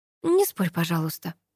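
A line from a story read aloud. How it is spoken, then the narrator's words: Mutter. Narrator (Russian): пробормотала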